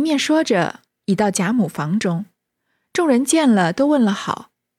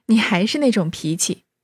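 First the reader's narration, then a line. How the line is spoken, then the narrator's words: Laughing. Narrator (Chinese): 秀烟笑道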